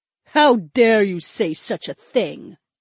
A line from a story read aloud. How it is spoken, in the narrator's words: Daisy snarled